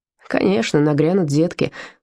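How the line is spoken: Grumbling. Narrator (Russian): пробурчал Вольфганг

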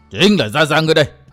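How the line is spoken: Roaring old man. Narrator (Vietnamese): lão gầm lên

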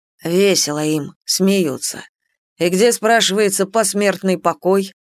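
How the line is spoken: Grumble from above. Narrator (Russian): Проворчал кто-то у нас над головами

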